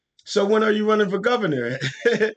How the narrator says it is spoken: I started laughing

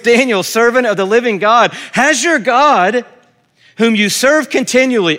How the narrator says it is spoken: he called to Daniel in an anguished voice

